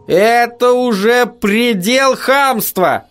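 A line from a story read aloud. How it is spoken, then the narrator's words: Shouted after someone. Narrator (Russian): Макнил крикнул ему вдогонку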